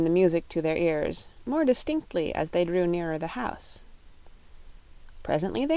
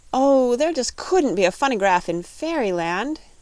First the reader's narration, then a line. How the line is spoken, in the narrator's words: cried Dorothy